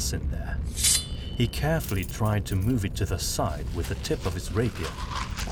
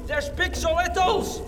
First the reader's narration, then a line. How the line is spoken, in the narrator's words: Gustav shouted